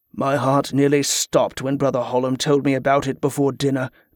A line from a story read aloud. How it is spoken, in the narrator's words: Banbrook muttered